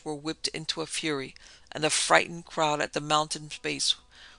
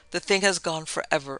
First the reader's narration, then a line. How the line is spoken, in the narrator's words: Armitage said